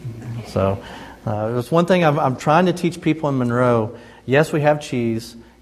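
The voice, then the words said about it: Southern American drawl. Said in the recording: “I've tried to lose a little bit of my Southern drawl”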